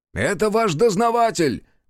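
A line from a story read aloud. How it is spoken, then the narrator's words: Shouted. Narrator (Russian): крикнул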